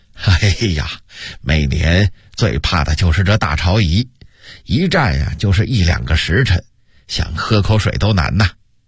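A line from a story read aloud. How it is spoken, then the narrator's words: Laughing. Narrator (Chinese): 杨荣笑着说道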